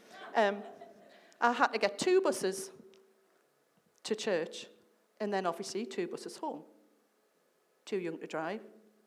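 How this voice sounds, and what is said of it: Sunderland (Mackem) English accent. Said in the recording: “I lived in Sunderland. I don't know whether you can tell by the accent.”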